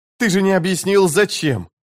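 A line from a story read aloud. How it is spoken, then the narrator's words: Grumbling. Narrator (Russian): проворчал Крокус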